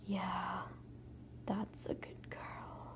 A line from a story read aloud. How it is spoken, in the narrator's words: You then whisper in a very low, warm, breathy tone